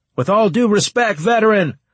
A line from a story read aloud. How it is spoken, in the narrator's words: I shouted